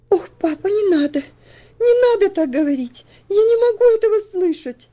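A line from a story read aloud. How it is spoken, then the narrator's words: Sobbing exclamation. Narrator (Russian): воскликнула она с рыданиями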